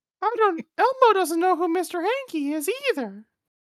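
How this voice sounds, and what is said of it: Elmo character voice, sounds like Mr. Hanky. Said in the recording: “Do Elmo ... Elmo can't really do a very good Elmo impression ... that just sounds like Mr. Hanky now to me”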